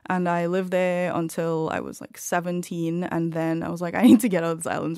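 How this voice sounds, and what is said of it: Distinctive Caribbean-influenced accent. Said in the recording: “everybody is listening to your accent ... why do you sound like you're Welsh? ... I grew up in Trinidad”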